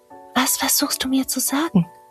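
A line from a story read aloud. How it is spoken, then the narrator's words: Soft restless breath. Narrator (German): hauchte Luise leise, während sie sich unruhig auf ihrem Stuhl hin und her bewegte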